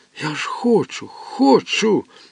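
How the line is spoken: Moaning. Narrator (Ukrainian): стогнав

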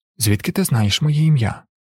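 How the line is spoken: Whisper. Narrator (Ukrainian): прошепотів

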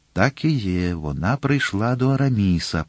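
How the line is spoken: Whispered. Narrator (Ukrainian): прошепотів Д'Артаньян

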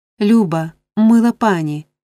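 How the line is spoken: Exclaiming. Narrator (Ukrainian): вигукнула дівчина

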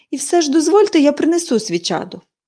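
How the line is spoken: Exclaimed. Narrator (Ukrainian): вигукнула вона

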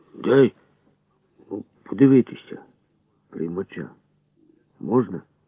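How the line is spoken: Hoarse, embarrassed. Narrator (Ukrainian): кукурузо кахикнув і, насупившись, щоб приховати ніяковість, сказав хрипло

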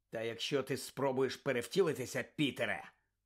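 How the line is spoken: Growl. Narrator (Ukrainian): прогарчав Блек

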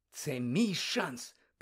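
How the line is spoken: Excited, elated whisper. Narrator (Ukrainian): прошепотів Фред Візлі, і обличчя в нього аж засяяло від перспективи такої нечуваної слави і багатства

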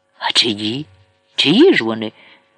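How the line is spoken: Astonished exclamation. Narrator (Ukrainian): вигукнув вражений Пісков

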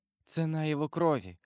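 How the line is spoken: Whisper. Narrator (Russian): прошептала она

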